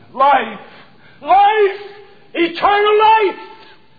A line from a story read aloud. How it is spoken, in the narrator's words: he cried